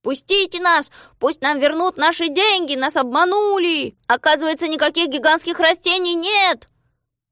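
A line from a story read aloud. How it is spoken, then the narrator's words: Crowd shouting. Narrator (Russian): Коротышки кричали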